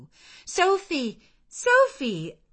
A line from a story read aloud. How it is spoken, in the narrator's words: I again cried